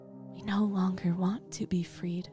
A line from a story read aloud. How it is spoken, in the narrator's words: in a calm voice respond